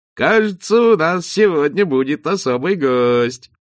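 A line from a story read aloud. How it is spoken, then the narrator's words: Mocking adult. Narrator (Russian): один из взрослых вдруг говорил насмешливо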